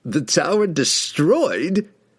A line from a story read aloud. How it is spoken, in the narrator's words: Kessel mocked